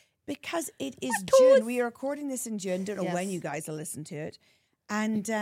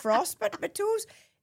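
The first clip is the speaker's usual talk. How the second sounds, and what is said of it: Put-on Northern Irish accent. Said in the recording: “I'm putting on my best Northern Irish accent.”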